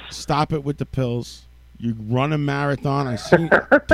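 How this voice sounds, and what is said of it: Put-on Brooklyn accent. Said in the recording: “I'm gonna tell you in a Brooklyn accent”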